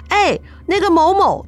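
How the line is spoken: Abruptly cut off. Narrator (Chinese): 突然住嘴了

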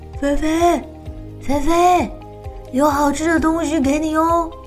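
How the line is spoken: Soft calling. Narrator (Chinese): 罗密欧轻轻的叫

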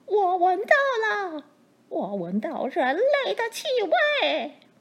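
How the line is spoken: Suspicious roar, dragon. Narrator (Chinese): 恶龙才进到卧房，马上四处张望，然后怀疑的大叫

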